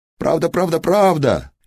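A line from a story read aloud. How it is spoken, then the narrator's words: Fairies babbling. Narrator (Russian): Лепетали вилы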